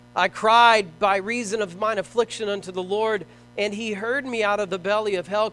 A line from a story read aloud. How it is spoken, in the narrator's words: cried I